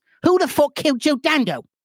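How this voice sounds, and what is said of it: Put-on British accent. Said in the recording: “the accents ... the British accents”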